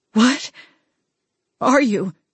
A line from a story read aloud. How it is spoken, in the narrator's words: I gasped, my own fear taking hold of my bones and joints